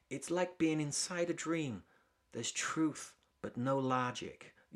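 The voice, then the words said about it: British speaker attempting American accent. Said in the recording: “that's my attempt at a British person doing an American accent.”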